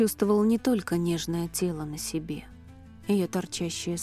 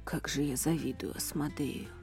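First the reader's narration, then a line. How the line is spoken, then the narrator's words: Muttering man. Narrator (Russian): пробормотал северянин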